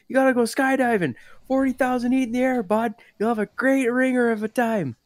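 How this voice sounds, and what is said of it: Thick Canadian accent. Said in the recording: “Just this thickest, you know, Canadian. Canadian accent.”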